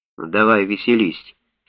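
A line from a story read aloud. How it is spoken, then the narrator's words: Calm. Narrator (Russian): спокойно сказал доктор Шафер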